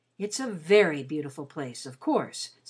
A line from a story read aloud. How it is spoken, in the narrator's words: said Fauntleroy with a little sigh